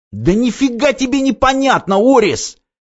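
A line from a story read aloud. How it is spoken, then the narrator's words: Boy's shout, then lowered. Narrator (Russian): крикнул пацан, но тут же понизил голос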